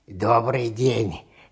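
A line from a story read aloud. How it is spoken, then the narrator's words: Slightly hoarse scarecrow voice. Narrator (Russian): сказала чучело немного хриплым голосом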